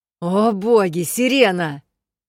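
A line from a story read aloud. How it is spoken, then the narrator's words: Barked. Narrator (Russian): рявкнула я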